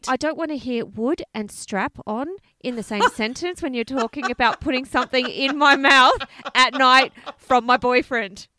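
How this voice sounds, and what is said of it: Australian-sounding accent. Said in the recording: “Why do I always sound so Australian?”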